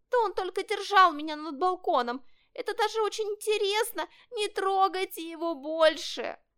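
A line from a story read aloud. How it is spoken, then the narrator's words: Kitten pleading. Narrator (Russian): взмолился котенок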